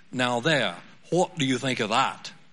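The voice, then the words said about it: Attempted British accent. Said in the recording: “I'm not sure if I'm going to butcher the British accent”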